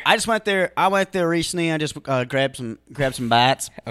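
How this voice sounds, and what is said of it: Drifting into a Southern accent. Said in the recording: “your accent slowly turned into what would be a Southern accent”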